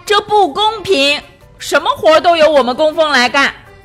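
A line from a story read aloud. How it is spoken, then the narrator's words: Loud complaining shout. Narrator (Chinese): 大声嚷道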